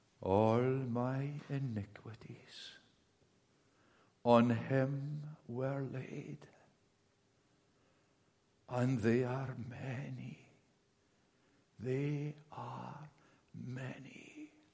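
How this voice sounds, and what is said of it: Imitated strong Scottish Highland accent. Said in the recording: “in a strong Highland accent, which I mimic”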